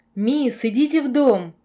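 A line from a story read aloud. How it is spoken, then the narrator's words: Shouting over rain. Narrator (Russian): перекрывая шум дождя, крикнул смотритель замка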